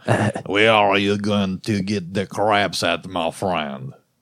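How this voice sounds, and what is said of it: Bad imitation French accent. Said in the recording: “This is not a good French accent.”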